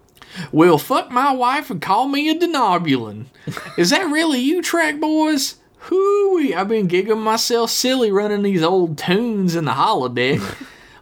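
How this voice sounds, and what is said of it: Hokey Southern accent. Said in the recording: “Hokey Southern accent.”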